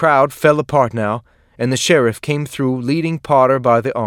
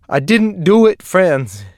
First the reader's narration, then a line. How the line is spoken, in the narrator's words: he sobbed